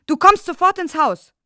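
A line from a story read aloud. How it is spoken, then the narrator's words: Muffled shout. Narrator (German): Er schrie hinter der Jalousie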